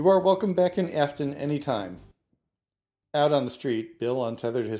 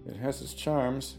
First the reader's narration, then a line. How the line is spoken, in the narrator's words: he muttered